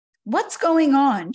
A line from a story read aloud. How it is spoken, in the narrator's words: shouted one of the men, surprised